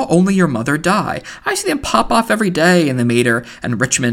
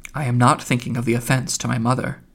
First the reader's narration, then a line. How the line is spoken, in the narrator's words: Stephen, shielding the gaping wounds which the words had left in his heart, said very coldly